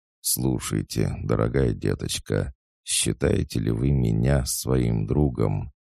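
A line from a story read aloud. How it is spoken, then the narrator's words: Caressing voice. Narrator (Russian): Дюруа своим ласкающим голосом сказал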